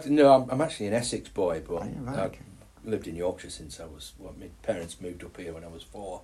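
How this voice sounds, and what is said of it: Yorkshire accent. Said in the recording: “that's when you get your Yorkshire accent”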